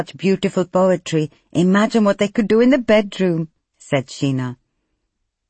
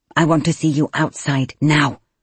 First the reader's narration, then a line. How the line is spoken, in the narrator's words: Kulwinda hissed